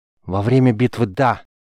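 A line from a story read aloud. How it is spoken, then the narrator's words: Angry young man. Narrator (Russian): Зло бросил юноша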